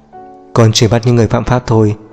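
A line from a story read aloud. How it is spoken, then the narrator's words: Cold reply. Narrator (Vietnamese): Cậu lạnh lùng đáp lại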